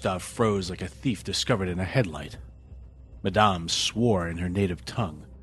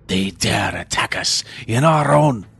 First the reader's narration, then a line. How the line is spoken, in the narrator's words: Madame screeched